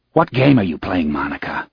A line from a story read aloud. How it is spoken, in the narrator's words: asked sharply